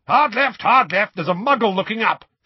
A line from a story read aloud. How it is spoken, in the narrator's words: shouted Moody from behind him